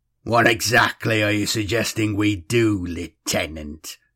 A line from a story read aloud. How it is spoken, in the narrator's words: Streck sneered